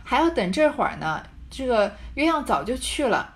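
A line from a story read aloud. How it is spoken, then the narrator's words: Laughing. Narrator (Chinese): 伺候的琥珀笑着说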